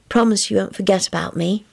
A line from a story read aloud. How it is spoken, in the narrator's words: she murmured sleepily